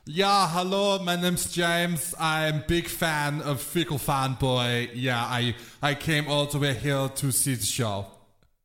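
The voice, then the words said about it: Put-on foreign accent. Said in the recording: “You got an accent.”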